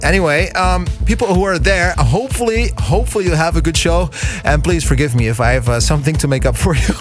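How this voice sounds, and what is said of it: Dutch accent with Canadian English. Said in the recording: “I partly have a Dutch accent, but partly also I think I'm lucky to have lived in Kingston, Ontario, so I got the fundament of English there as a local, really. And that's why I sound a little different than most people from Holland.”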